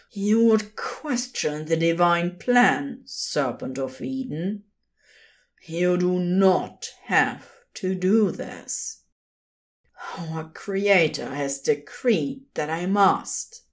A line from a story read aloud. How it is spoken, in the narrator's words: he countered, and then groaned again in pain